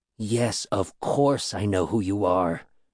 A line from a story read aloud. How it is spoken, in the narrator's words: whispered in my ear